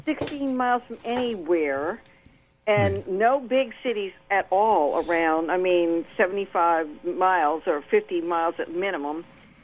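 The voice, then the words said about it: Slightly raspy voice. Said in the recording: “I'm a little raspy this morning with a cold.”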